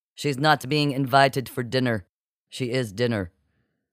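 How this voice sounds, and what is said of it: Strong Norse accent. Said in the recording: “in her strong Norse accent”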